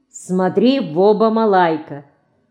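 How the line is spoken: Stern, serious child. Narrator (Russian): малайка ответит строго и серьезно

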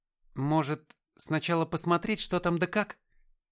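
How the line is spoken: Uncertain suggestion. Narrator (Russian): неуверенно предложил я

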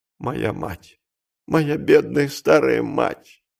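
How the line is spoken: Sobbing. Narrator (Russian): повторял, рыдая

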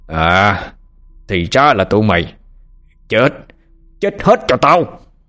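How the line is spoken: Murderous roar. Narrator (Vietnamese): Phổ Hiền đầy sát khí, đoạn gầm lên

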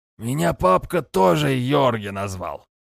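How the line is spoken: Drunken wheezy chuckle. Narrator (Russian): С пьяным смешком просипел невысокий мужичок

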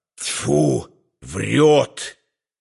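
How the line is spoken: Hissing into ear. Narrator (Russian): прошипел на ухо

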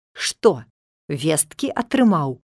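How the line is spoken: Spiteful grinning. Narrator (Belarusian): сказаў ён, злосна ухмыляючыся

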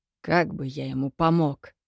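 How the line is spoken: Grim smirk. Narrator (Russian): Мрачно усмехнулся Кирино

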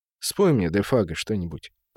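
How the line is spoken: Quiet request. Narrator (Russian): попросил он тихо

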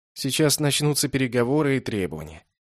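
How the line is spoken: Bored voice. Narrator (Russian): скучным голосом сказал я

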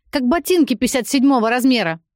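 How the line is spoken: Shouting. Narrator (Russian): закричала Юля

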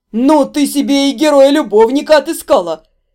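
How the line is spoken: Breathless between roars of laughter. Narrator (Russian): В перерыве между раскатами громового хохота выдохнула

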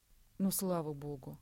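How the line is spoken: Relieved sigh. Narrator (Russian): вздохнула Кристина

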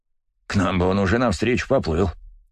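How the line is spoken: Snorting. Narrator (Russian): хмыкнул Клещ

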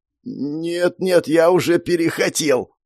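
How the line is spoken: Groan through clenched teeth. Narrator (Russian): сквозь стиснутые зубы простонал бедняга

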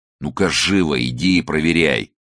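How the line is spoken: Growling. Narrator (Russian): зарычал он

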